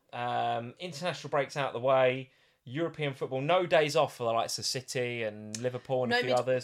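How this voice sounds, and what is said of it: Croaky voice. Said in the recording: “my voice is a bit croaky. I've been coughing a lot as well”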